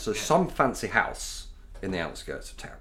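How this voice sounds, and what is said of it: Home Counties English accent. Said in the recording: “we'll adopt my proper home county's accent again”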